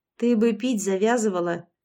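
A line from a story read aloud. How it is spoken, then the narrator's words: Grumbling, suppressing a smile. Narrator (Russian): буркнула я, хотя сама не в силах была сдержать улыбку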